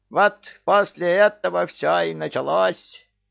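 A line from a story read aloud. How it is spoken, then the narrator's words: Screeching parrot. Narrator (Russian): завопил попугай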